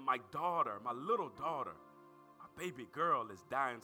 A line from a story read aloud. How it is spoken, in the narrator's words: declares, pleaded earnestly